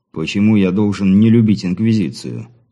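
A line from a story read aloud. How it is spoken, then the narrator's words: Feigned indifference. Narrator (Russian): Как можно более безразличным тоном постарался сбить возникшее напряжение Андрей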